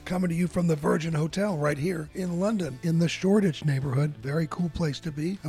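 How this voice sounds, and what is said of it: Hoarse voice. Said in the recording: “my hoarse holiday voice”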